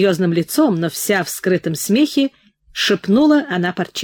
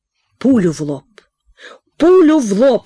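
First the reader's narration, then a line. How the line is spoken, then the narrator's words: Sobbing wail. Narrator (Russian): с рыданием в голосе завопил пан Парчевский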